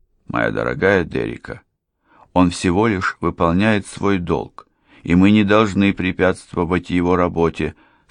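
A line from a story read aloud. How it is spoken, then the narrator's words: Calm objection. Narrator (Russian): спокойно возразил Форд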